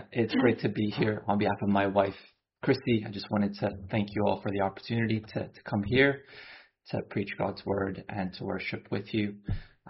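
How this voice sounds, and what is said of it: American accent. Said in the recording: “from my accent, I grew up in the States”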